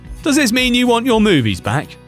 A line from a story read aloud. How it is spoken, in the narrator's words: asks as everyone erupts into laughter once more